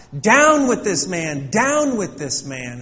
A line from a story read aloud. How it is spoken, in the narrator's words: the crowd continued to shout